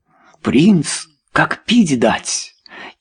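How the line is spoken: Quiet exclamation. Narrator (Russian): тихо воскликнул Чарльз

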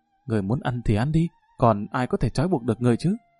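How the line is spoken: Soft snap. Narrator (Vietnamese): Đại tiểu thư khẽ gắt một tiếng

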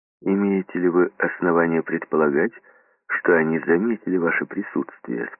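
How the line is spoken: Plain. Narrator (Russian): спросил он

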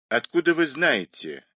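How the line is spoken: Snapping retort. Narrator (Russian): огрызнулась миссис Мейнард

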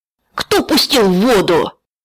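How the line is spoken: Yelling. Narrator (Russian): заорал вожак

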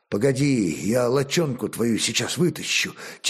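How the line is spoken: Quiet. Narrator (Russian): тихо проговорил Олег

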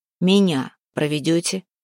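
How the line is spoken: Stern question. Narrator (Russian): строго спросил Куприян

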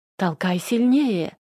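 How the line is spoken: Hysterical cry. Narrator (Russian): истерично вскрикнула Лариса

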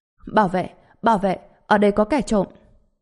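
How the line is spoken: Furious shout. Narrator (Vietnamese): Tử Nhi càng nhìn bộ dạng bình thản của Trần Bình càng trở nên tức giận, trực tiếp hét lên

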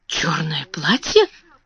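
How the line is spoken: Muttering again. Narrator (Russian): снова пробормотала мисс Амелия

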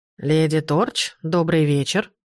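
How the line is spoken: Booming, unfamiliar voice. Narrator (Russian): прогудела фигура голосом, совсем не похожим на отрезвляющий голос Демьена Дарча

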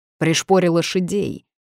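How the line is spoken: Bark. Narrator (Russian): гаркнул

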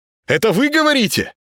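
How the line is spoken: Loud awkward shout. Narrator (Russian): Плохо слыша себя, с непривычки крикнул Володаров

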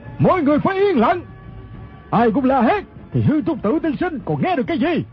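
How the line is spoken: Leader shouting sternly. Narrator (Vietnamese): Người quát lên chính là thủ lãnh quần hào Ô Lão Đại

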